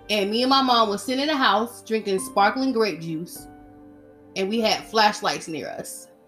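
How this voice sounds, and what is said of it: Emotional, choked-up speaking voice. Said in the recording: “I don't know why I'm getting emotional. I guess I'm getting emotional”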